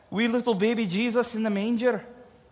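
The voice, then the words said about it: Put-on Irish accent. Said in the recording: “I don't know why I went into an Irish accent for that”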